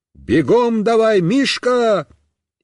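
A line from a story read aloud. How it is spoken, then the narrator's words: Shouted. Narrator (Russian): Я закричал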